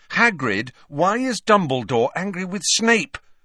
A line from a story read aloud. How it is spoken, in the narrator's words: Harry asked loudly